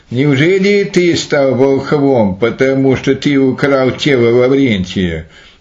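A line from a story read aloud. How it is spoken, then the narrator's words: Laughing, the king. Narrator (Russian): царь засмеялся и сказал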